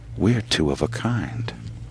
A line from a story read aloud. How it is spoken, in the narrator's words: said the dwarf, almost in a whisper